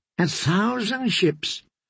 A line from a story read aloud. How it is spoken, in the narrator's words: Sir Harry Swift was wheezing